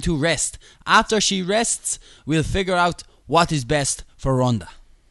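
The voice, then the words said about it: Put-on accent. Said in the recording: “Was that yeah at my accent?”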